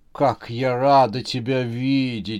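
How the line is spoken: Soft, deep chest voice. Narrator (Russian): сказала она мягким грудным голосом Зубодерову

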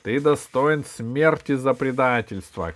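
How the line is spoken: Shout. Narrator (Russian): крикнул Кусандра

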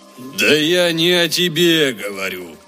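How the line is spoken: Donkey's groan. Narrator (Russian): простонал осел

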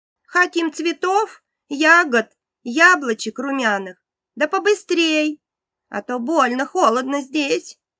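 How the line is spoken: Child shouting. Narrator (Russian): закричала дочка

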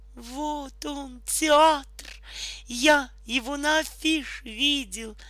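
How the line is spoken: Joyful shout. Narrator (Russian): радостно закричал Бизе, увидев большое желтое здание с белыми колоннами

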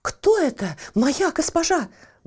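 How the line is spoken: Head slave exclaiming. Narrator (Russian): воскликнула главная рабыня

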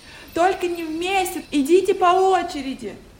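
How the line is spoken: Shouting. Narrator (Russian): Закричали братья Тима

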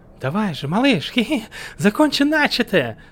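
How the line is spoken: Silly giggly teasing. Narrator (Russian): глупился хохотуша

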